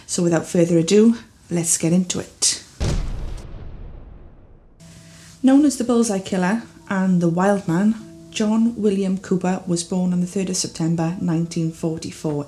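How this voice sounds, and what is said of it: Welsh accent. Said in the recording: “As you can probably tell from my accent, I am from the beautiful country of Wales in the United Kingdom”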